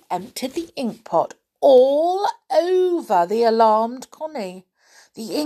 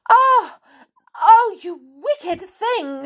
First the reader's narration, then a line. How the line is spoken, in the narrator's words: she cried